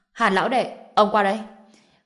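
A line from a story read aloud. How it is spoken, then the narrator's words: Immediate shout. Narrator (Vietnamese): Ông Triệu Húc Cường kia lập tức hét với Hàn Học Lâm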